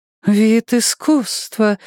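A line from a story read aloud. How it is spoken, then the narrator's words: Admiring breathy exhale. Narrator (Russian): восхищенно выдохнула коротко стриженная шатенка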